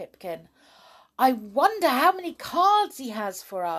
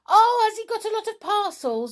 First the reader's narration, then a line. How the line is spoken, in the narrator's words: yelled Perry